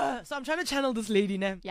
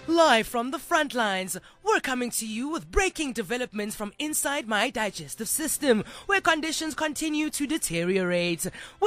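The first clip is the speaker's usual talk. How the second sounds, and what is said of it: Exaggerated dramatic news-reporter delivery. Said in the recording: “a fully exaggerated, not real. ... we're exaggerating this thing. ... I'm not going to use an accent.”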